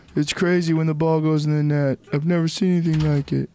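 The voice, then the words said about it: Imitates another person's voice. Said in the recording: “Bad Jamie impression.”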